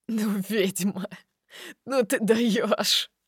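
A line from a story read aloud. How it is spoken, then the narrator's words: Laughing. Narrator (Russian): Продолжает смеяться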